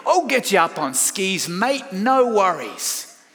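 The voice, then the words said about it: American trying an Australian accent. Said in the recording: “you Americans like to try and talk Australian”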